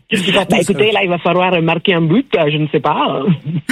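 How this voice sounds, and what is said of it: Put-on southwestern French accent, rolled r's. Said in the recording (French): “avec l'accent du sud-ouest ... je vous ai jamais demandé de rouler les airs ... C'est pas l'accent gascon”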